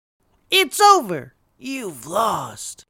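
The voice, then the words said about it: Impression of a fictional character. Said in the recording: “that impression ... a character ... doing an impression”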